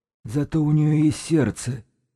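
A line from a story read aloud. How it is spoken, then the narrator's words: Objecting. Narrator (Russian): возразил Сиплый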